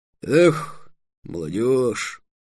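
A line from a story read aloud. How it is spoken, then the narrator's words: Heavy sigh, muffled by helmet. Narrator (Russian): Железноголовый тяжело вздохнул под своим шлемом и сказал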